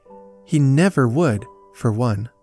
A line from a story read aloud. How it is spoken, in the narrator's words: Peter said earnestly